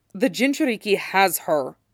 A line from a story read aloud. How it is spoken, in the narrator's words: says sharply